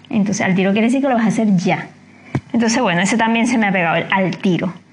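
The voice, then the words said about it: Venezuelan Spanish accent. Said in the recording (Spanish): “para que yo pierda el acento o, para que los venezolanos perdamos el acento pasarán muchos años”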